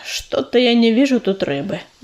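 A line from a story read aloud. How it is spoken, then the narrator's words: Sigh. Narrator (Russian): вздохнул он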